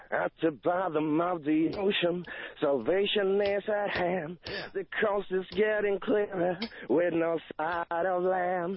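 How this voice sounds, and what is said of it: Singing in an American accent. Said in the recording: “we sing in American accent, actually, or at least we try to.”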